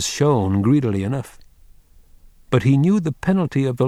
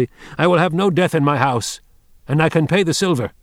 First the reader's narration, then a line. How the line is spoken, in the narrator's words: when Wang Lung heard her say this, all his old remorse smote him, and he answered her fiercely